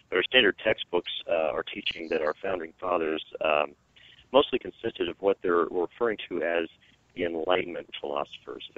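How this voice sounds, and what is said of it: Slightly hoarse voice. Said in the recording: “my voice is starting a little, I apologize to everyone, I'm a little hoarse today”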